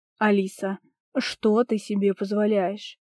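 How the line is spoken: Growled. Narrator (Russian): прорычал Петр

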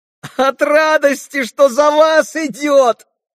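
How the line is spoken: Ringing childlike yell. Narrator (Russian): завопил каким-то детски звонким голосом Колганов

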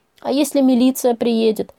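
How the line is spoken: Sobbing. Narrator (Russian): прорыдала я

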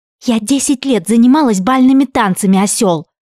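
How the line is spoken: Angry hiss. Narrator (Russian): прошипела она прямо в лицо квадратному нескладному Шону

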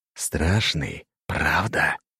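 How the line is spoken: Hiss. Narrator (Russian): прошипел он

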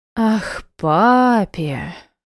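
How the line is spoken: Drawl, holding back laughter. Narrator (Russian): протянула я, сдерживая смех

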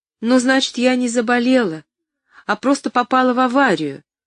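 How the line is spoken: Relieved exclamation. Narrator (Russian): с облегчением воскликнула Поллианна

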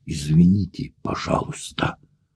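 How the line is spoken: Mumbled, poor French accent. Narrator (Russian): пробормотал с жалким французским акцентом

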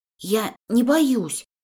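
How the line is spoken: Hoarse voice. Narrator (Russian): говорю охрипшим голосом

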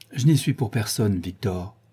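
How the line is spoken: Sighing. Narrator (French): dit-il avec un soupir

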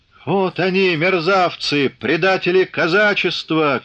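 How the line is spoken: Officer shouting. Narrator (Russian): крикнул какой-то длинноусый офицер

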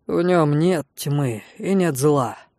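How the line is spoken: Grey-haired man's relieved sigh. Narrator (Russian): Седовласый облегченно вздохнул

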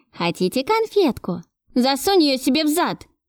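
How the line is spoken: Shouting child. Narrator (Russian): крикнул грязный мальчишка

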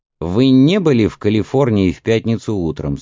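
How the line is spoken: Plain question. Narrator (Russian): спросил Кривич

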